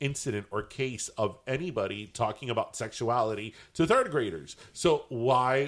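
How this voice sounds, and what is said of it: Usual voice. Nothing is said of it.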